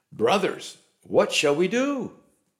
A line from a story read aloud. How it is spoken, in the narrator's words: they were cut to the heart and cried out